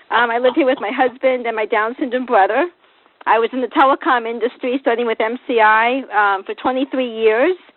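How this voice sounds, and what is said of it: Boston accent. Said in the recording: “I have a Boston accent I acquired from my parents, which Fairfax County Schools could not get rid of, so I still have it today”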